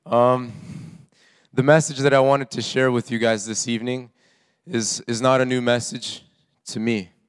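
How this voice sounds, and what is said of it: Slightly off voice, like a cold. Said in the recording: “my voice is a little bit funny, I caught a little cold over the weekend”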